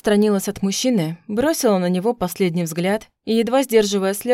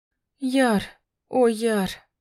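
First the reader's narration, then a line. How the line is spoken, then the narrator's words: Breathless exclamation. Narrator (Russian): выдохнула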